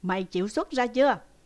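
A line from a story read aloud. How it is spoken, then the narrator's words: Loud shout. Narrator (Vietnamese): ông thầy, tôi đoán thế, đã quát lớn lên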